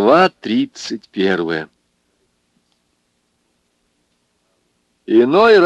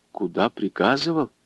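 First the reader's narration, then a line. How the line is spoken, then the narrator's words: Fearful mutter, woman. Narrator (Russian): Жена, обмирая от страха, пробормотала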